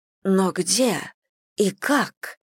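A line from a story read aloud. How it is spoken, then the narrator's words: Breathless exhale. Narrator (Russian): выдохнула миссис Бантинг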